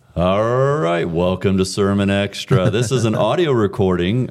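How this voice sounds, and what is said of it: Radio announcer voice. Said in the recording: “Just immediately had a radio voice. ... You get this other voice.”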